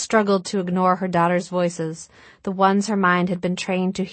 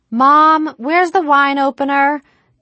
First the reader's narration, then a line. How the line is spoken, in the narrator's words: Anna hollered from the living room